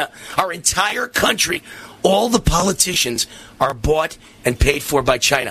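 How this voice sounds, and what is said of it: Loud, agitated raised voice. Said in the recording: “I'm going to have to be a little calmer and lower my voice, because I'm going to lose my voice.”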